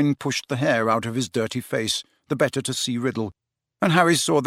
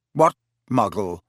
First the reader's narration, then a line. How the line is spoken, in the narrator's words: said Riddle sharply